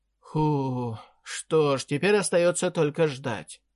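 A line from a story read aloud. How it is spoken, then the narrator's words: Sighing statement. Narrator (Russian): вздохнув, заявил Артпе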